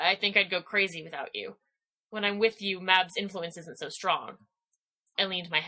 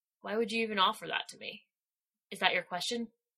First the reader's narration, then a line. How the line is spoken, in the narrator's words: I asked quietly